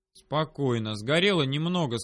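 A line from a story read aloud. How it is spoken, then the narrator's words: Plain. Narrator (Russian): сказал я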